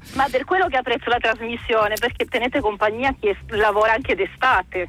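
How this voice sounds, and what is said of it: Italian with Sardinian-sounding accent. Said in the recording (Italian): “Mi sembra di sentire, adesso la sparo, un accento sardo ... il tuo italiano fa pensare un pochettino a quell'accento lì ... il 90% delle persone mi dicono che sono sarda”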